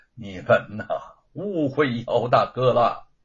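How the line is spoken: Sighing. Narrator (Chinese): 玉凤叹了口气说

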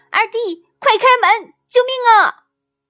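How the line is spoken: Shouting while running. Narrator (Chinese): 老大……边跑边喊

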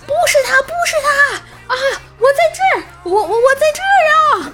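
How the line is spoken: Distant desperate shout. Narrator (Chinese): 远处外卖小哥卓绝的喊道

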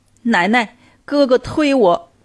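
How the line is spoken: Crying, pitiful child. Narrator (Chinese): 苗苗哭着，可怜巴巴的说

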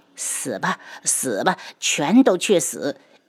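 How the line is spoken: Cruel smiling. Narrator (Chinese): 嫣红夏嘴角挂着残忍的笑意

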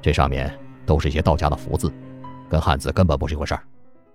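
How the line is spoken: Calm, flat. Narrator (Chinese): 老六淡淡的开口道

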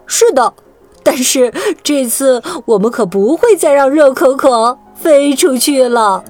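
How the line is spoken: Smiling. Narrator (Chinese): 皮卡西笑着对长腿兔 说

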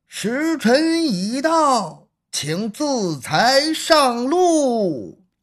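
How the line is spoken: Cold loud official shout. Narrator (Chinese): 监斩官面带冷酷的神情，高声的喊了一句

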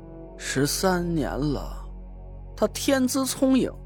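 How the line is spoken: Sighing. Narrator (Chinese): 梧桐长叹了一口气，说道

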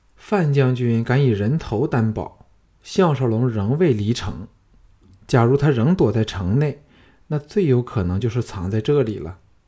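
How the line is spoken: Sighing. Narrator (Chinese): 龙阳君叹了一口气说

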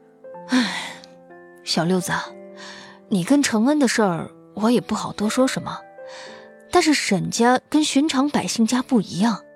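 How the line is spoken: Sighing. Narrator (Chinese): 四少叹了一声，说

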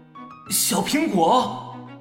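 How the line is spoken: Involuntary cry. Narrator (Chinese): 南萧不由自主的叫道

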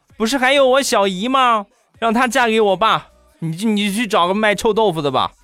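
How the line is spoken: Child's loud yell. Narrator (Chinese): 我那小侄子他儿子大声的吼道

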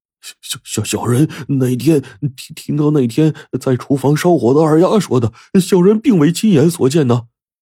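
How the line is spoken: Stammering. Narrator (Chinese): 伙计结结巴巴的说

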